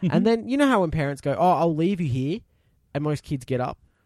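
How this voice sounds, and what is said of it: Usual voice. Nothing is said of it.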